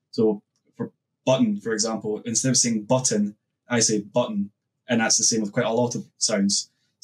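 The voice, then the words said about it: Scottish accent, dropped T's. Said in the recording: “I know my accent normally I have a tendency not to pronounce T's ... you know the person's from Scotland. That's a very typical thing in Scotland.”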